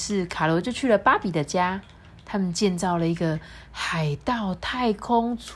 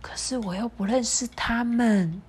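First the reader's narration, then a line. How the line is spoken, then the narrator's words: Quiet. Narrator (Chinese): 卡罗小声的说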